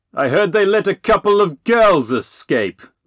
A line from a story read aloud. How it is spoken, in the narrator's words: Little John roared suddenly